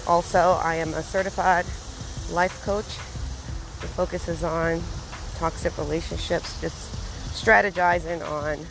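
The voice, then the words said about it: Slightly out of breath while speaking. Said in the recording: “You might hear me be out of breath a little bit because, again, I'm walking and sometimes there are hills.”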